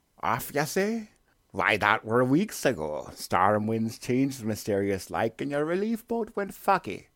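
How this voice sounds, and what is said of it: Gruff old sailor character voice. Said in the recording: “Willem Dafoe.”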